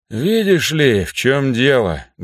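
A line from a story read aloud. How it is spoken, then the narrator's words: Sad sigh. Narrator (Russian): грустно вздохнул он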